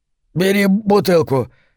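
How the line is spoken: Strained, then coughing. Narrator (Russian): выдавил Хок и закашлялся

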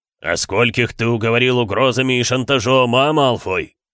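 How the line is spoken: Roaring. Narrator (Russian): взревел он

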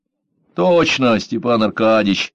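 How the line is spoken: Sighing driver. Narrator (Russian): вздохнул шофер

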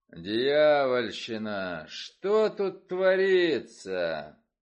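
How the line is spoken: Booming voice. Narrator (Russian): Прогремел за моей спиной голос Нира Вульфа

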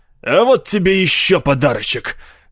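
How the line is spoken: Hoarse bark. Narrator (Russian): хрипло рявкнул Дэви

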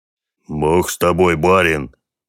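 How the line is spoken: Grumbling. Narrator (Russian): проворчал Клим

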